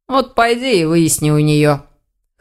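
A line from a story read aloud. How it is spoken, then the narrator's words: Snorting. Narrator (Russian): хмыкнул Элгар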